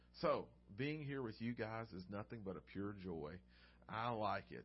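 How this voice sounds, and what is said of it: Southern American accent. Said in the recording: “I haven't had anyone make fun of my accent yet”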